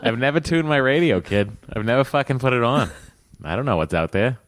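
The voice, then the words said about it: Boston accent. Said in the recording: “It's all this Boston talk. Never, your accent's coming out.”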